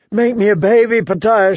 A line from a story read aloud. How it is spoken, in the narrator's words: she screamed